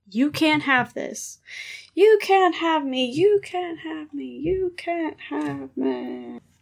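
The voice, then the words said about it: Good cartoon child character impression. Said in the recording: “Angelica from the rug... That was a really good impression... your Angelica antics”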